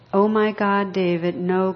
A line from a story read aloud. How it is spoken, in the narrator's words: cried Glenda when she saw the bright lights headed straight for their car